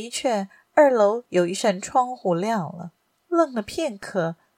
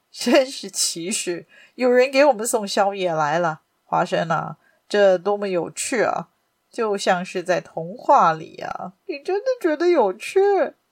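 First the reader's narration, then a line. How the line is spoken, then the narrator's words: Worried. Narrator (Chinese): 华生忧心忡忡地说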